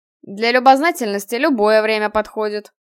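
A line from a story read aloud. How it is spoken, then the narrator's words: Amused snort. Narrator (Russian): хмыкнул Киган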